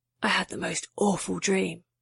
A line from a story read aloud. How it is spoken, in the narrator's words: Edward whispered in her ear